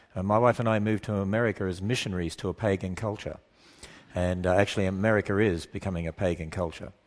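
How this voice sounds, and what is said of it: Australian accent. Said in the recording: “I don't have an English accent or a Welsh accent or an American accent. I have a deep southern accent. So it goes back to the land down under. So I originally come from Australia”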